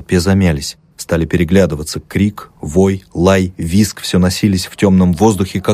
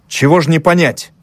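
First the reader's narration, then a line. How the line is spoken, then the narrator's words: Angry scolding. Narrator (Russian): сердито напустился он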